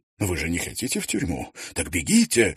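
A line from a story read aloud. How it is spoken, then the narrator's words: Exclamation. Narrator (Russian): воскликнул он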